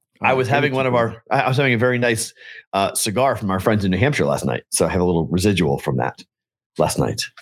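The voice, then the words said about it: Hoarse, tired voice. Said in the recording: “You sound hoarse. You sound tired. ... My voice is a little messed up.”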